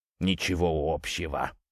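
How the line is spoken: Muttered. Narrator (Russian): буркнул он

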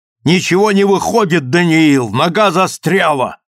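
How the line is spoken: Frantic rapid shouting. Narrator (Russian): Я прокричал это с безумной быстротой

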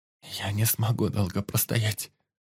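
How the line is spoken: Whisper through barely parted lips. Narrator (Russian): прошептал Юсуф, почти не открывая рта

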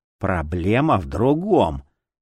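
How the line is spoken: Angry exhale. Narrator (Russian): зло выдохнул Узора

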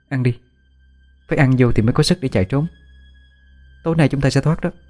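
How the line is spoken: Reassuring. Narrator (Vietnamese): Tôi trấn an

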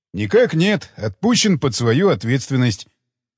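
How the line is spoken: Joyful. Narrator (Russian): радостно сообщил он

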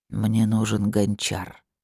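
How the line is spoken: Quiet. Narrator (Russian): тихо произнес

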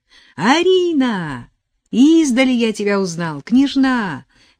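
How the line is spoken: Cheerful exclamation. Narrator (Russian): весело воскликнул отец Модест

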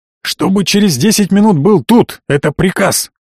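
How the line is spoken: Growling into phone. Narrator (Russian): прорычал Сайто в телефон

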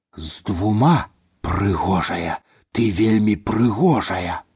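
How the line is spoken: Breathless whisper. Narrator (Belarusian): На выдыху шаптаў я

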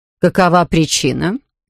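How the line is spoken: Stern question, woman in charge. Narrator (Russian): строго спросила заведующая

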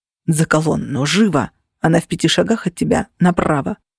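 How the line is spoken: Whispered. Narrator (Russian): прошептал навигатор

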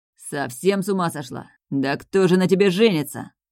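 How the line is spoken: Angry laughter. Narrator (Russian): Зло рассмеялся он

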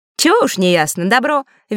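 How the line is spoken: Cheerful. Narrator (Russian): весело кивнул перевозчик

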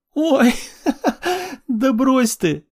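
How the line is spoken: Laughing loudly. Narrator (Russian): расхохоталась старшая сестра

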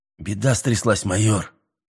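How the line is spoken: Angry. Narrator (Russian): сердито маленький грек

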